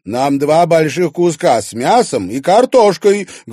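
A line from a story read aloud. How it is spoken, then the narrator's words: Loud request. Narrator (Russian): громко попросила она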